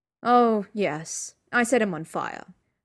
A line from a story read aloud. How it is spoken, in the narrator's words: Sherlock said coolly